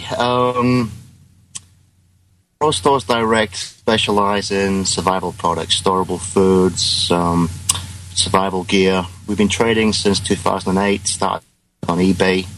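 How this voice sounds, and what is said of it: British accent. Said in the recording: “You might notice by my accent, I'm actually a Brit.”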